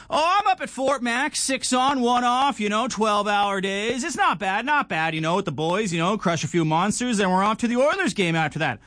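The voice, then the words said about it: Put-on Alberta Canadian accent. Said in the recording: “that's not a good Alberta accent. Not that good, right? 6 out of 10 ... one of those classic Alberta Bud accents”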